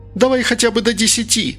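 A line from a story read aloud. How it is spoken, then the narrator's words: Shouting out window. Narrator (Russian): закричала Инга в окно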